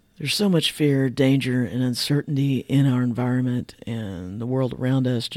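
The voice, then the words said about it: Hoarse voice from laryngitis. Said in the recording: “I'm recovering from laryngitis. My voice is getting better, but it's obviously still not 100%.”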